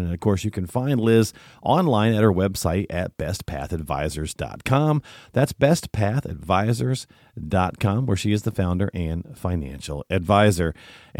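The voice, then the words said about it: Congested, allergy-affected voice. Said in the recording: “you can probably hear it in my voice ... The pollen is a pollinating and my allergies are a little annoyed with it this morning”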